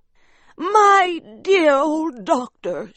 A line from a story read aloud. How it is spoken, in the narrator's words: she cried